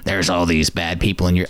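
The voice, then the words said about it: Weird put-on character voice. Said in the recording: “I don't know why I'm doing a really weird voice for that.”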